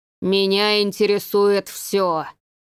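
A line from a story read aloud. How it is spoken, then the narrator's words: Frightening howl. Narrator (Russian): провыл тот особенно страшным голосом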